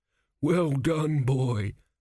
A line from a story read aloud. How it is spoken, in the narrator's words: groaned a crumbling mummy